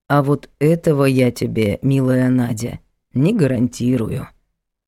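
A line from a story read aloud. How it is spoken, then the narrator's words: Calm. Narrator (Russian): спокойно произнес Егор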